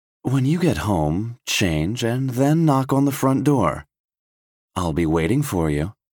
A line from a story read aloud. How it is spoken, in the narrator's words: In a seductive voice, Lauren says